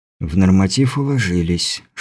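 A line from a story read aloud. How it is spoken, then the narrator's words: Whispered. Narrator (Russian): шепотом сообщил он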